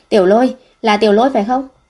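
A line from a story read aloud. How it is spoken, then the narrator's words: Shouting while chasing. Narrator (Vietnamese): vừa đuổi vừa hét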